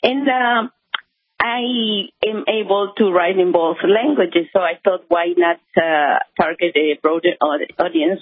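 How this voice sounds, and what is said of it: Peruvian accent in English. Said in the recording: “as you can tell by my accent, I am Peruvian”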